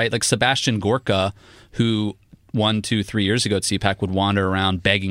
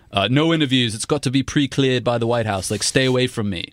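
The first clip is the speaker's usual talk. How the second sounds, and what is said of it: Sebastian Gorka accent impression. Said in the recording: “was that some accent work? ... I thought it was very good. ... I'm good at impressions.”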